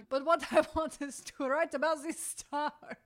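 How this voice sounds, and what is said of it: Deliberately bad French accent. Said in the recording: “It's a terrible French accent.”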